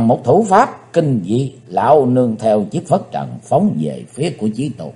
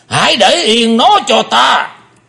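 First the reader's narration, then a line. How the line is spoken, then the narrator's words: Deep heavy shout. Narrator (Vietnamese): Lão ta nặng trầm quát lớn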